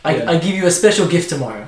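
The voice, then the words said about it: Put-on Russian accent. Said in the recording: “I don't know why I'm doing a Russian accent.”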